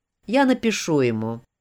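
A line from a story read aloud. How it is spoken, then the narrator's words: Gloomy, dejected. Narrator (Russian): уныло промолвил мистер Изи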